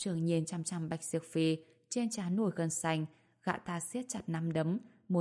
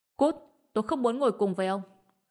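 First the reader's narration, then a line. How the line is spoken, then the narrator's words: Shout. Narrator (Vietnamese): Bạch Diệp Phi lập tức hét lên một tiếng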